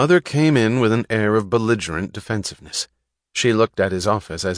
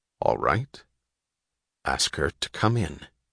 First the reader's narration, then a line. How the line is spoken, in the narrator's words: with a greater effort than the problem of the train wreck had required of him, he said quietly